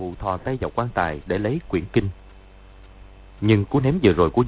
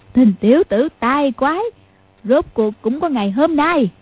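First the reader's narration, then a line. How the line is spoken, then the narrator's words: Loud guffawing speech. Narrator (Vietnamese): Mụ cười phá lên ha hả, nói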